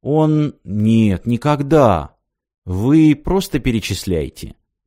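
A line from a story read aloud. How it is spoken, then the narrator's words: Soft. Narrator (Russian): мягко сказал Артем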